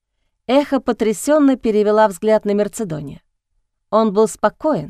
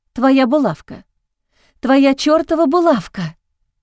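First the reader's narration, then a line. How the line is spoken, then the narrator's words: Breathy echo. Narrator (Russian): выдохнуло эхо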